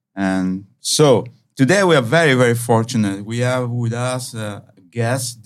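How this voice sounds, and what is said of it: Italian accent. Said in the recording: “I'm from Italy. Maybe you recognize my accent a little bit.”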